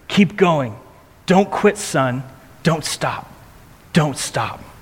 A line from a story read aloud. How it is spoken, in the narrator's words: Paderewski kept whispering into the boy's ear